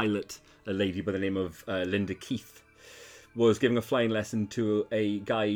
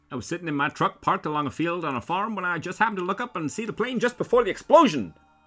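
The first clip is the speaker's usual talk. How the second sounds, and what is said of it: Put-on mid-Atlantic accent. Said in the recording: “Is this mid-Atlantic accent?”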